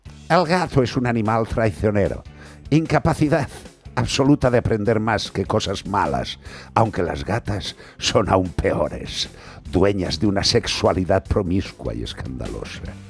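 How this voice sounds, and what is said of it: Put-on voice of ancient philosopher. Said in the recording (Spanish): “Voy a poner voz de Aristóteles”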